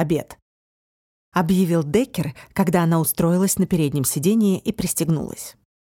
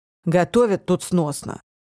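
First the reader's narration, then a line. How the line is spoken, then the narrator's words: Grumbling mutter. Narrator (Russian): буркнул Деккер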